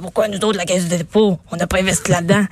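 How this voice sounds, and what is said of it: Imitates another person's voice. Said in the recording (French): “j'aime ton imitation. Je sais pas c'est qui t'imite”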